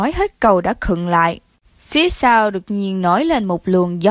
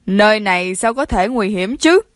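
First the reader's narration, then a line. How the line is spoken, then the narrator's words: Laughing. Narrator (Vietnamese): Chiến Nam Thành bật cười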